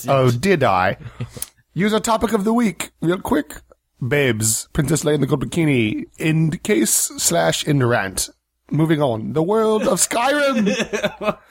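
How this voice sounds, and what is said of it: Exaggerated put-on accent. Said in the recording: “You're getting a little crazy with that accent, bro. You're getting a little nuts.”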